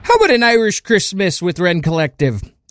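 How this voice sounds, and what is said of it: Put-on Irish accent. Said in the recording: “I have no idea if that was a good Irish accent”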